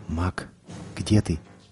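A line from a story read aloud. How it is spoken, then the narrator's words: Quiet. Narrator (Russian): тихо произнес он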